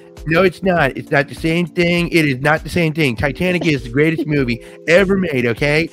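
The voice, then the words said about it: Imitates another person's voice. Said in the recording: “do my Trump voice.”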